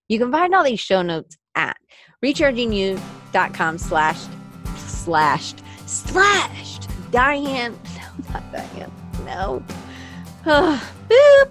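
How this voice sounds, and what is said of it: Commercial announcer-style voice. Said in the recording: “I could do it in a commercially voice.”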